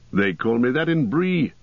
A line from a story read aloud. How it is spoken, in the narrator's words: said Strider, laughing